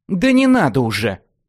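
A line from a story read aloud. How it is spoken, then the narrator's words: Softened. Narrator (Russian): смягчилась Лесса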